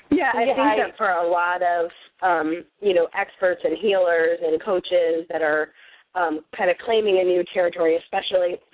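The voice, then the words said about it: Scratchy, under-the-weather voice. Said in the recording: “I'm a little under the weather, so my voice is scratchy”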